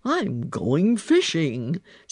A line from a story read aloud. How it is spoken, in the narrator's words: said he in his deep, grumbly, rumbly voice